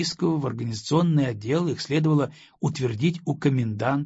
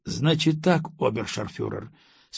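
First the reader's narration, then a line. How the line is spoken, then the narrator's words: Calm. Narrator (Russian): спокойно начал русский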